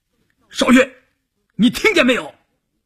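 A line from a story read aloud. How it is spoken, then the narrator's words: Shouting. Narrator (Chinese): 关山林喊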